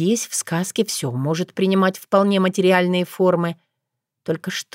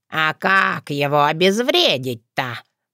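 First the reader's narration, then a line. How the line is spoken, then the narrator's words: Grumbled. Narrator (Russian): проворчала я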